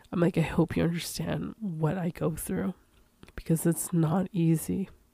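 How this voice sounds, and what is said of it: Emotional, tearful voice. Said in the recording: “Oh my God, I'm getting emotional.”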